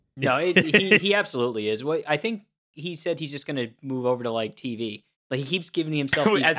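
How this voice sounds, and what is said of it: Usual voice. Nothing is said of it.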